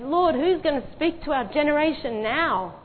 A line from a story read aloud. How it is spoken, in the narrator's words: he cried out to the Lord and said